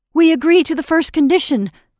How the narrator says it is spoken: cried the people with one voice

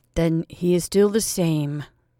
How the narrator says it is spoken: said the priest gloomily

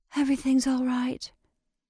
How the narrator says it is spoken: she repeated in a whisper

